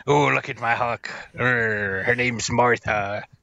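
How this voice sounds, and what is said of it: Exaggerated pirate-like accent. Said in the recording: “I don't know why I'm making him sound like a pirate. ... He sounds like Groundskeeper Willie.”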